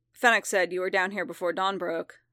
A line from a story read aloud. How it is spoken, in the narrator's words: Fett said gruffly